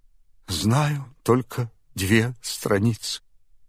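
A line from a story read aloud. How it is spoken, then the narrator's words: Tearful child's answer. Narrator (Russian): бедный Алеша сквозь слезы отвечал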